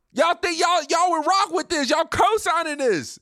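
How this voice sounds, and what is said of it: Angry yelling. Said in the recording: “That's why I'm yelling.”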